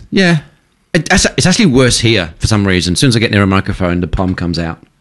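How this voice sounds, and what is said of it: British accent. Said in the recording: “Your accent's still quite intact ... as soon as I spoke to you, I went, oh, you're British”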